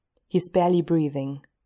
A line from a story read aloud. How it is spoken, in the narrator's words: he says quietly